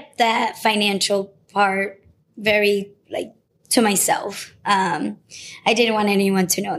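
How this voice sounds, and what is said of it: Usual voice. Nothing is said of it.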